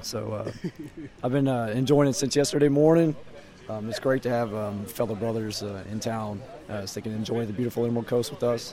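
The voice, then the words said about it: Hoarse, nearly lost voice. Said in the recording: “as you can tell by my voice is gone”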